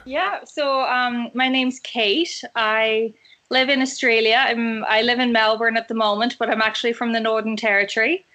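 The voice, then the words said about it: Irish-sounding accent. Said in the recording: “foreign accent syndrome ... she doesn't sound Australian. She actually sounds like she's from Ireland”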